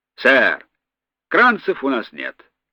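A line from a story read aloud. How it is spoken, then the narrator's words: Sighing answer. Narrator (Russian): вздохнув, ответил вахтенный с Эльдорадо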